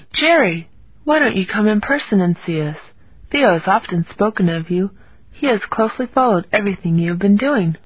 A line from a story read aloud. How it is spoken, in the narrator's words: warmly answered